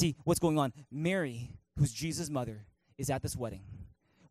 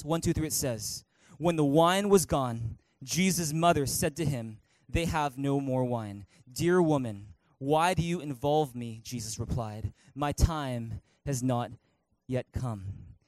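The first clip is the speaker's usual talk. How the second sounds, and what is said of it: Reading aloud in a loud voice. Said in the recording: “in a big loud voice”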